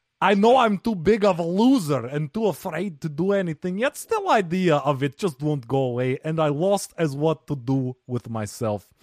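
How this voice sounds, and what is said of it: Put-on foreign accent. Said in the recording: “thank you guys for staying with me for that full minute of accent. I don't know what that was.”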